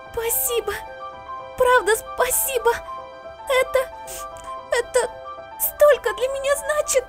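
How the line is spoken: Sobbing whisper. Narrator (Russian): Сквозь всхлипы шепчет заклинательница

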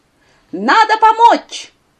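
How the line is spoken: Loud, enthusiastic. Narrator (Russian): громко, воодушевленно сказал

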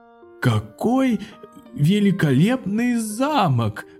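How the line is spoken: Admiring exclamation. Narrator (Russian): воскликнул восхищенный король

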